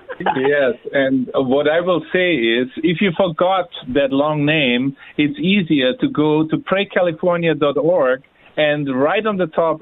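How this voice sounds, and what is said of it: Speaks with a noticeable accent. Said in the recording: “because I like his accent”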